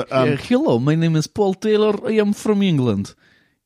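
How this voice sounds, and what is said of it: Put-on Russian accent. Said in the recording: “doing a Russian accent ... That's like the worst Russian spy ever.”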